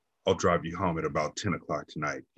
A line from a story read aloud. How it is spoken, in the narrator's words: he said